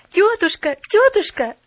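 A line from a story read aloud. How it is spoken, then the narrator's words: Joyful babbling. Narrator (Russian): радостно залепетала она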